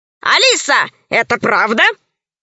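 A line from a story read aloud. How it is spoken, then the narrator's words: Stern question. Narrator (Russian): строго спросил весельчак У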